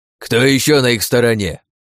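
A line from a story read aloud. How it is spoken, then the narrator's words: Old man barking. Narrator (Russian): рявкнул дед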